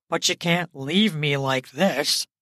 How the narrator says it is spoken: he says in a pathetic tone

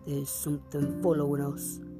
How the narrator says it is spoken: he said in a low voice

